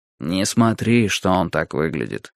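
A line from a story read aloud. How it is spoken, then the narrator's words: Quiet. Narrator (Russian): тихонько сказал мне Юрий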